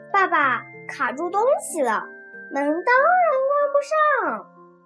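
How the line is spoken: Laughing shout. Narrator (Chinese): 我笑着喊起来

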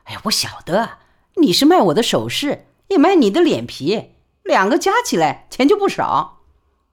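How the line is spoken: Laughing. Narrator (Chinese): 李宝莉便笑说

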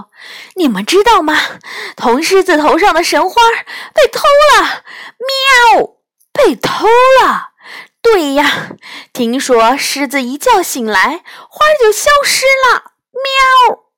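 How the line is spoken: Breathless panting. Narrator (Chinese): 猎猫梨花 呼哧呼哧的喘着气说

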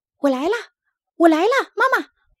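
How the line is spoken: Happy shouting. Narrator (Chinese): 他高兴的喊着

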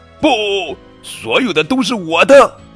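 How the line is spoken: Queen shouting. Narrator (Chinese): 女王伦诺克斯大叫

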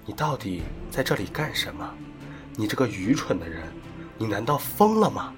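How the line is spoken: Low voice. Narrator (Chinese): 他们低声说

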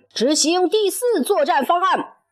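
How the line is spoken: Loud shout. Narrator (Chinese): 黑猫警长大声喊道

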